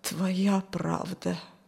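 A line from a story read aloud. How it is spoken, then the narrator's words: Strained, forced out. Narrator (Russian): натужно выдавил он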